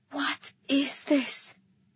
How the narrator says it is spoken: I asked Dene in a whisper

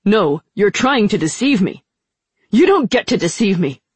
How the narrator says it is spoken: Kitai said very loudly

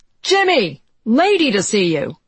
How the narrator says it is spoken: In stentorian tones, the editor bellowed

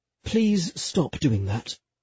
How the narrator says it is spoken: he murmured

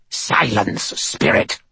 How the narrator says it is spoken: Cowl said in a harsh voice

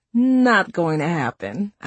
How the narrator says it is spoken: I giggled

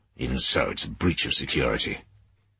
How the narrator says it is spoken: Sauer muttered

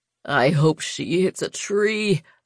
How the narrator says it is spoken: Vex whined

